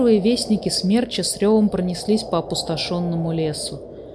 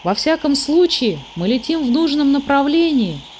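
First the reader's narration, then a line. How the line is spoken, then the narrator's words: Cheerful. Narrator (Russian): весело сказал Мумитроль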